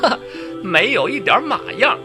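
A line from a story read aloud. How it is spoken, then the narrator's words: Laughing scolding. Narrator (Chinese): 我笑骂道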